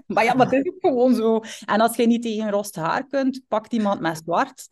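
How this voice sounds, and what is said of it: West Flemish accent. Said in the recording (Dutch): “jij met je West-Vlaams accent, je zou beter dictie volgen”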